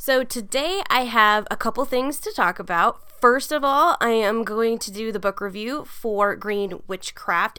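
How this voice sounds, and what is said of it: Congested voice from a cold. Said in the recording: “I have a cold right now, so my voice sounds really weird ... Sorry about the voice.”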